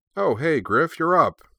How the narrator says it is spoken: Shirley said cheerfully

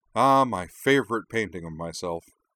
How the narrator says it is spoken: she added sarcastically

